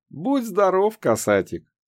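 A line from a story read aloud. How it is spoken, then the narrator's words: Cheerful old woman replying. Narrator (Russian): Весело отозвалась сухонькая старушка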